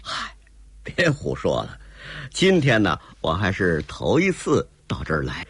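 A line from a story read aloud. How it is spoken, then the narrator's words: Laughing. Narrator (Chinese): 卓君明笑了一声说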